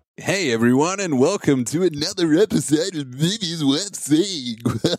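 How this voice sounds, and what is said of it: Exaggerated radio announcer voice. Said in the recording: “put on the stupid radio voice.”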